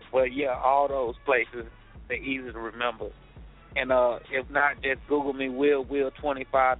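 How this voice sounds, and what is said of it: Speaks with a thick accent. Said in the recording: “I'm hope my accent is not too thick, so they can understand me”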